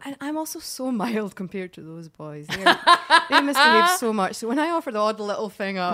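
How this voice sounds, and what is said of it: Non-North American accent. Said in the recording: “we hear from your accent ... perhaps you weren't, you know, born and raised in North America”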